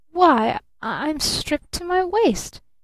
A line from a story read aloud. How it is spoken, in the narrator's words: he stammered in real horror